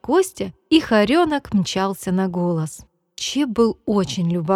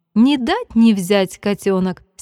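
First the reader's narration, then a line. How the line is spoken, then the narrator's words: Laughing, grandmother. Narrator (Russian): смеялась бабушка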